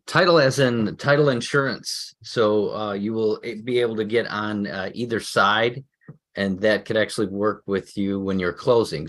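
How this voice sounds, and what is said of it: Chicago accent. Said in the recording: “I can tell by your accent, you're legitimate Chicago.”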